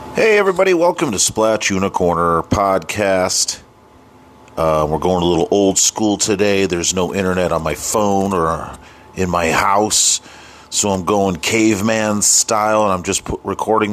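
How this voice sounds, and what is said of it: Sick-sounding voice. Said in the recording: “Sorry for my voice. I was sick all week.”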